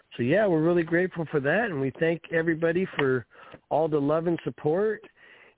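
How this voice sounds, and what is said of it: Slightly tired-sounding voice. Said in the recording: “I sound a little tired”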